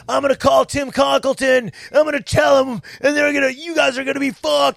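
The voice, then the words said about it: Raspy yelling voice. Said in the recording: “And I'm yelling ... Why'd you sound like you chain smoke cigarettes?”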